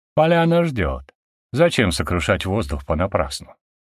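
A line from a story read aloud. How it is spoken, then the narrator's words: Calm. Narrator (Russian): спокойно говорил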